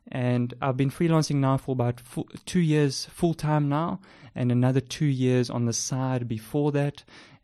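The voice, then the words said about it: South African accent. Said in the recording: “As you can tell by my South African accent,”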